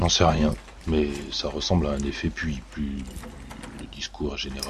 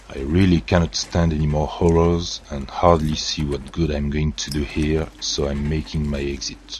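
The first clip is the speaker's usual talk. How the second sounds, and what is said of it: Put-on Egyptian accent in English. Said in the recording (French): “Votre accent égyptien est un régal.”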